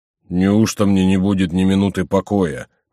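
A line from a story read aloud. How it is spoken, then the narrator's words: Grumbling. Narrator (Russian): проворчал Горанфло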